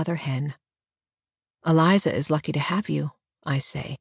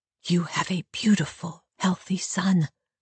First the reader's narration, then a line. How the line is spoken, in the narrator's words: I whisper